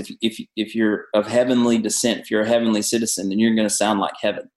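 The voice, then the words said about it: Southern American accent. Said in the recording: “I grew up in the South. You can hear it in my accent. You can hear it the way I talk. I'm a Southern boy.”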